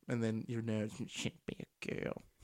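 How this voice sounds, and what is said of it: Exaggerated nerd character voice. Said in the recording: “that's the last I do of the nerd voice today ... You can criticize my nerd voice.”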